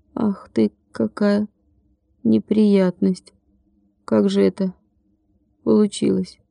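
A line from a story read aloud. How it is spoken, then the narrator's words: Soft moan. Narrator (Russian): тихонько простонал он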